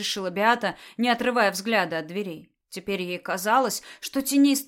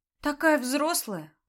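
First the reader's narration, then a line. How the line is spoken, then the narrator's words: Sighing. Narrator (Russian): вздохнула Дуня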